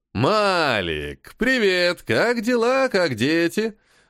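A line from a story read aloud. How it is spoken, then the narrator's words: Loud, cheerful greeting. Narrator (Russian): Весело и громко произнес Локи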